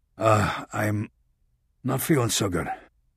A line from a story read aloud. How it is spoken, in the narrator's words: he mumbled